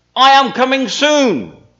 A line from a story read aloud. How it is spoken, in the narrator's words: leaned over and shouted out